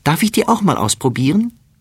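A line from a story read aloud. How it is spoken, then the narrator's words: Calling. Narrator (German): ruft sie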